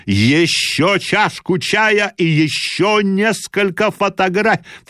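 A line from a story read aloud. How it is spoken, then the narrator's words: Shouted. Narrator (Russian): кричал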